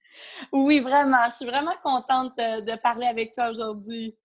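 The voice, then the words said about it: Québécois French accent. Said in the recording (French): “je pense que les auditeurs auront reconnu un petit accent ... j'habite au Québec. Donc, ... de là, le petit accent”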